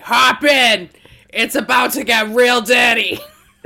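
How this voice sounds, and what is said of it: Put-on deep Boston accent. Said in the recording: “do you put that deep Boston on?”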